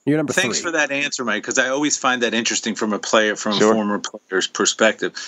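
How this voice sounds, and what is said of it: Usual voice. Nothing is said of it.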